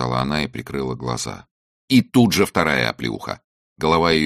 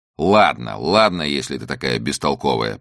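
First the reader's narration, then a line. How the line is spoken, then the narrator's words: Contemptuous snort. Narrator (Russian): презрительно фыркнул Чак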